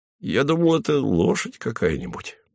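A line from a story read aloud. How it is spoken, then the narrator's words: Muttering. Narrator (Russian): бормотал Хлебоводов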